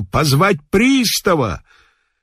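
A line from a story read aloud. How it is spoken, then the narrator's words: Shouting. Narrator (Russian): он закричал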